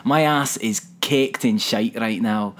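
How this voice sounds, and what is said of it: Put-on Scottish accent. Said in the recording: “That was not a good accent, but I think that might be the best Scottish accent I've ever done ... it wasn't actively awful”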